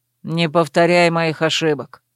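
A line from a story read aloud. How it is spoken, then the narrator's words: Cold interruption. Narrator (Russian): холодно перебил его Верт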